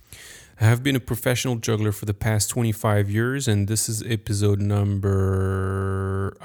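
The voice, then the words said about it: French accent. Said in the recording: “I'm French. Sorry for my accent”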